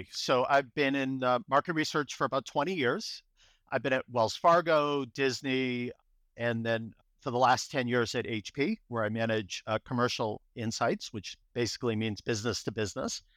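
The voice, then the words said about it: Boston accent. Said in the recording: “I grew up in Boston, so you'll hear my Boston accent come through”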